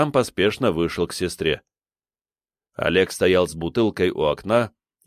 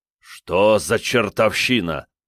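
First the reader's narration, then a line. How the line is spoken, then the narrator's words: Growled under breath. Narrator (Russian): прорычал себе под нос Олег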